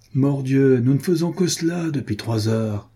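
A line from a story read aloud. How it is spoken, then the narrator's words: Exclaiming. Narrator (French): s'écriait Renaud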